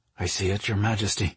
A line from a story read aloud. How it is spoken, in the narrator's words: Isha quietly responded